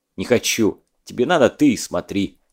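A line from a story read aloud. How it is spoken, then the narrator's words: Quiet snap. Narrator (Russian): тихо огрызнулся Задов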